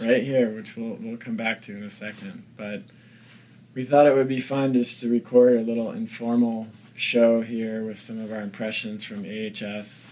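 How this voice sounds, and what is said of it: Scratchy, slightly hoarse voice. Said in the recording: “my voice is a little scratchy. I just did my talk”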